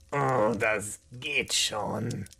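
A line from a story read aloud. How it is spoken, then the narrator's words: Contented murmur. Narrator (German): murmelte er zufrieden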